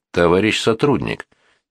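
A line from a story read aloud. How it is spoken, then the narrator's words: Quiet. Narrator (Russian): тихо проговорил Свищенко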